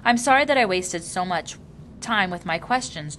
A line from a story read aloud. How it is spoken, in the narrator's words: Jonas asked